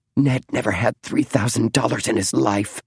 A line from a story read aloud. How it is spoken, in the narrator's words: whispered Clara Hay